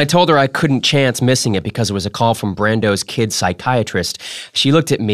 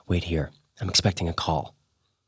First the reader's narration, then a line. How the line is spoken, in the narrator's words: I whispered